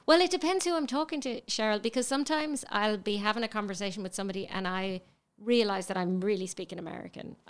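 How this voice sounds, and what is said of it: Irish accent. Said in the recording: “It's just the accent ... She really gets away with that accent ... out of Ireland for a long time ... But you haven't lost that accent.”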